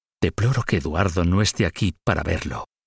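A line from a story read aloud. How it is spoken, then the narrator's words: Queen whispering. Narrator (Spanish): La reina Isabel le susurró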